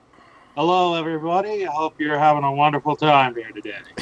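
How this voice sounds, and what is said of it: Game show host voice. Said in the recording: “game show voice? ... I'm doing my game show host voice.”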